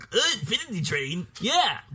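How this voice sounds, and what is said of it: Imitates another person's voice. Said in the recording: “That's a great Kevin impression. ... I don't remember Kevin talking like that.”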